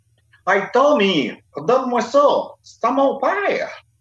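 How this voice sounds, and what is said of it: Exaggerated Franco-Ontarian dubbing accent. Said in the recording (French): “il y avait un accent qui se pouvait pas ... il y avait toujours un parler qui se pouvait pas ... doublé par des franco-ontariens”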